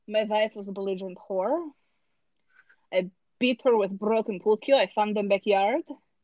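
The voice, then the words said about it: Put-on foreign accent, broken English. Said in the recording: “as long as you're using the accent, you can talk about whatever you want to”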